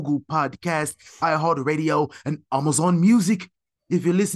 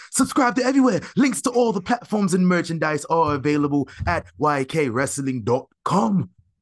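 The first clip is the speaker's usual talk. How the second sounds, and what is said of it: Put-on accent. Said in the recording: “Accent back on.”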